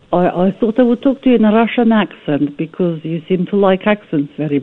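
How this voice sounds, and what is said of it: Poor put-on Russian accent. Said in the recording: “That was a terrible Russian accent.”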